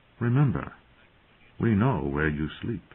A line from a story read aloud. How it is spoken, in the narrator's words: John said softly